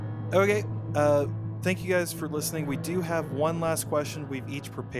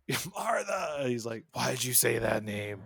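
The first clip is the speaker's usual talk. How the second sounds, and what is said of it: Imitates another person's voice. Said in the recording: “That's my Ben Affleck. That's my Batflick impression.”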